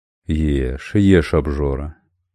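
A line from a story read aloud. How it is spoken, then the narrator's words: Tender cooing. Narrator (Russian): ласково заворковал Робинтон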